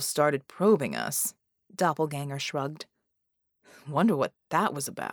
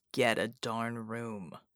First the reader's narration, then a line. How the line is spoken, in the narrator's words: Knight muttered